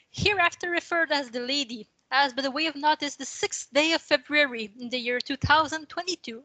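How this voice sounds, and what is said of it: English with a weak, non-native accent. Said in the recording (French): “mon accent anglais est quand même très médiocre”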